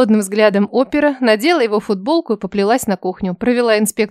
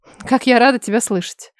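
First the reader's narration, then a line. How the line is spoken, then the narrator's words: Breathless woman. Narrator (Russian): Выдохнула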